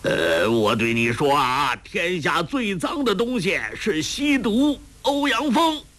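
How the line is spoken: Loud. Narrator (Chinese): 他大声地说道

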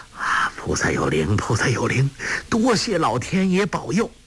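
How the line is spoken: Murmuring. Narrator (Chinese): 张阿生喃喃地说

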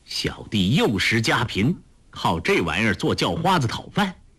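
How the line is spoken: Cold. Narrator (Chinese): 柯镇恶冷冷地说

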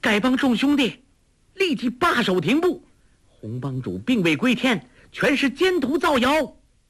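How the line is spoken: Clear, loud call. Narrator (Chinese): 黄蓉朗声叫道

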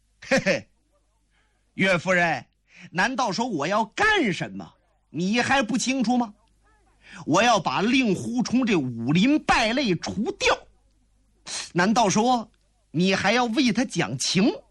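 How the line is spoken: Cold laugh. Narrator (Chinese): 左冷禅冷冷一笑

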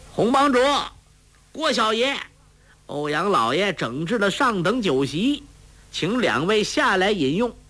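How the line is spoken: Shouting. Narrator (Chinese): 欧阳锋派人在桅杆下大叫

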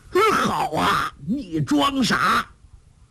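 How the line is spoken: Frightened cry. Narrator (Chinese): 梁子翁又惊又恐，叫道

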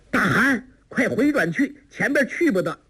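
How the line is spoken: Calling out. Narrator (Chinese): 郭靖叫道

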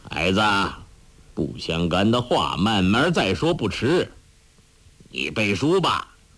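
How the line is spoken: Cold. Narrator (Chinese): 欧阳锋冷冷地说

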